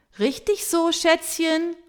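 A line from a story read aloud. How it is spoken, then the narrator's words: Cheering call. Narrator (German): ruft Tamara Schöne applaudierend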